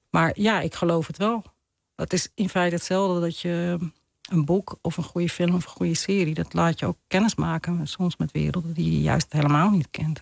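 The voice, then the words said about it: Amsterdam Dutch accent. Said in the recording (Dutch): “Jullie horen het ook aan mijn accent. ... Met mijn Amsterdamse accent.”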